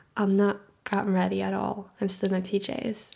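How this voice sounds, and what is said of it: Sleepy just-woke-up voice. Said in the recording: “hear by my voice, but I've basically rolled out of bed”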